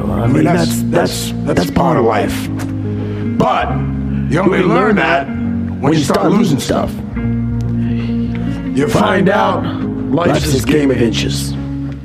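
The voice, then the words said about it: Poor Al Pacino impression. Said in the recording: “terrible Al Pacino impersonation”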